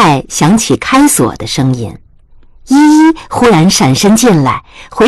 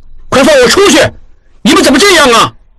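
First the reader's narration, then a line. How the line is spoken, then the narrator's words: Angry. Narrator (Chinese): 应季怒声道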